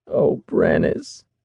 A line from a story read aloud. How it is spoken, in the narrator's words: she sobbed